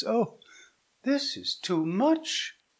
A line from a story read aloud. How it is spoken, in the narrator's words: cried Hippolyta